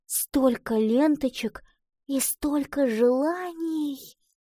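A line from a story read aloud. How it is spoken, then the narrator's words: Heartfelt whisper. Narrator (Russian): с чувством прошептала она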